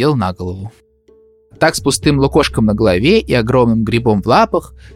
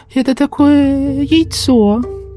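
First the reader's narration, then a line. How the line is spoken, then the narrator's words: Terrified squeak. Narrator (Russian): пропищал Сластик с ужасом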